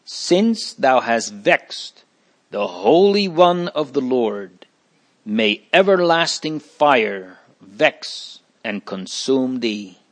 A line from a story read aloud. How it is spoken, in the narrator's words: exclaims